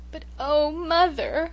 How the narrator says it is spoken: sobbed

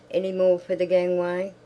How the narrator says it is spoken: a voice like a cry shouted

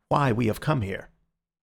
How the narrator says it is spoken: he said in a low voice

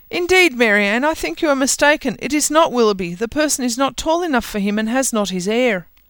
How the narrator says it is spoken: Elinor cried out

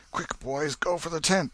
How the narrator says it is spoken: exclaimed Tom

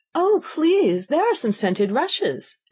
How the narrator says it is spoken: Alice cried in a sudden transport of delight

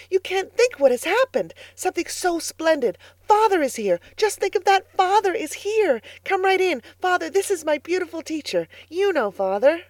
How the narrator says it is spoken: he cried excitedly

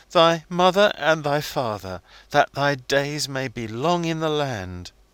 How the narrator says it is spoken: Wilding, sobbing as he quoted from the commandments

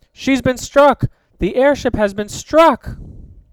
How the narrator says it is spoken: Tom yelled

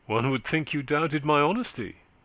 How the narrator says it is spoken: he said, with a laugh, though his colour rose in a quick resentfulness

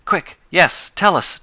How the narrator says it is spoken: demanded Tom eagerly

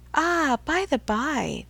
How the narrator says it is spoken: with a sudden accession of gay thought, she cried

